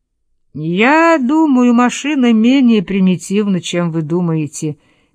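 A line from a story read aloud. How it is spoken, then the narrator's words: Sad. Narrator (Russian): печально сказал Гумми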